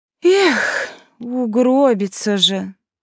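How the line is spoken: Pitying sigh. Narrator (Russian): Жалостливо вздохнула Елинда

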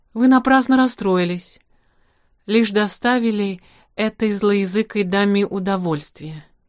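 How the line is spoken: Gentle. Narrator (Russian): мягко сказал

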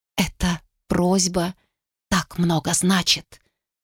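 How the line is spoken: Whisper. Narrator (Russian): прошептала она

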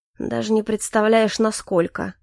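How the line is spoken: Gloomy, frowning. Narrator (Russian): мрачно произнес Калипсо, нахмурившись

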